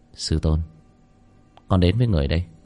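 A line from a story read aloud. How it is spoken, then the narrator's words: Frowning mutter. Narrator (Vietnamese): cau mày, miệng lẩm bẩm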